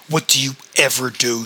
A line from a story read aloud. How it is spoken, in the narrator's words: snarled back